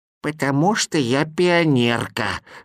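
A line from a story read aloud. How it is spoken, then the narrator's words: Old woman's voice. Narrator (Russian): старушечьим голосом ответила она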